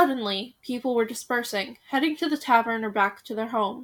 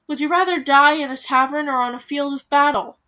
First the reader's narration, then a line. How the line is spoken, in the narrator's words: Hansel cried